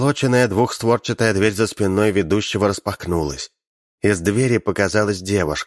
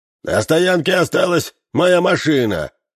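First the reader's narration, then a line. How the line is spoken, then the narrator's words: Shouted from audience. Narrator (Russian): выкрикнул из зала бородатый гражданин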